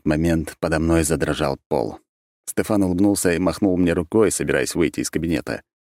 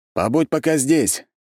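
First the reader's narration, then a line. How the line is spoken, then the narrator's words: Shout. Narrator (Russian): крикнул я ему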